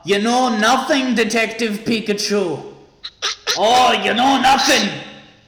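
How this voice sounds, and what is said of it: Imitates another person's voice. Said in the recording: “How do you like my Ygritte impression? ... It's really good.”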